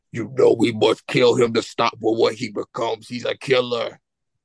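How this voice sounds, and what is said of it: Impression of a villain character voice. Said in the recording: “do a whole impression ... was it pretty good? ... give it a B ... it was a 7 out of 10 ... trying to get that Venom MCU role”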